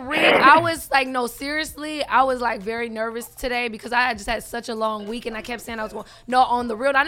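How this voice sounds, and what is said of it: Hoarse, nearly lost voice. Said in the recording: “As you can tell, my voice is gone”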